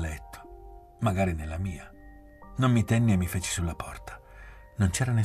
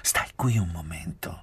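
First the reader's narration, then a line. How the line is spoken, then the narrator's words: Conspiratorial tone. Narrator (Italian): mi disse, con un tono di congiura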